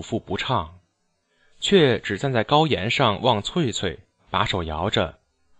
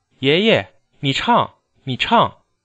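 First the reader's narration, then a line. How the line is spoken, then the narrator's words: Girl calling out. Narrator (Chinese): 翠翠……一面喊祖父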